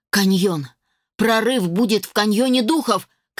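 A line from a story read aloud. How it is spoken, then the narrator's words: Shouting while running. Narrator (Russian): крикнул на бегу Хоторн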